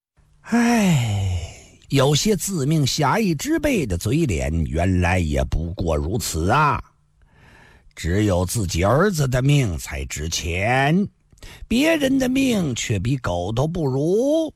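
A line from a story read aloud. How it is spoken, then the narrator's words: Sighing, muttering to self. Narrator (Chinese): 梅尔先生叹了口气，自言自语地说道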